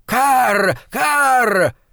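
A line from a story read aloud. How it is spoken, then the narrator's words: Old woman's sharp cry. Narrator (Russian): Старуха резким голосом крикнула дважды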